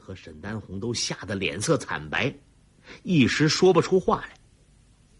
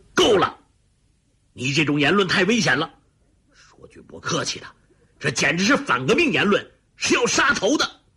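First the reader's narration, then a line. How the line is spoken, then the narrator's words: Furious roar. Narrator (Chinese): 李云龙猛击一掌……他怒吼道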